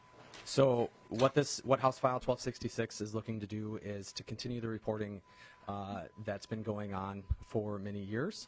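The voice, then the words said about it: Voice in poor condition. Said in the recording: “My voice isn't necessarily friendly with me this morning”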